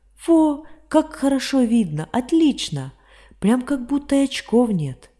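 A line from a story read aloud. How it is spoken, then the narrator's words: Exclaiming. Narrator (Russian): воскликнул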